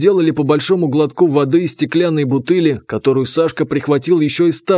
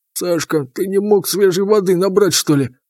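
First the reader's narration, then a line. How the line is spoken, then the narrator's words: Mumbling with full mouth. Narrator (Russian): Неразборчиво пробурчал Потапыч, набив рот хлебом и салом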